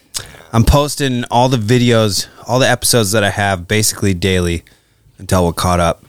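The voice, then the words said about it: Out of breath, breathless speech. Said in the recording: “I'm out of breath from the light hanging up that light.”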